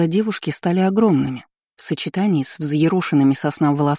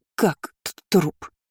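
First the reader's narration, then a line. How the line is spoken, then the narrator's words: Stammering question. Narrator (Russian): заикаясь, переспросила Шарлотта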